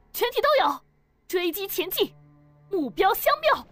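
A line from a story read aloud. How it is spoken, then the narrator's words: Loud shout. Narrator (Chinese): 黄子红高喊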